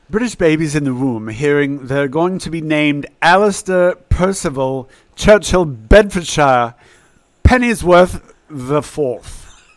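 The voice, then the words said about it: Put-on British accent. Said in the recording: “that is a great British accent.”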